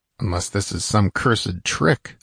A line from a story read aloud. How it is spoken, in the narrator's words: muttered Conan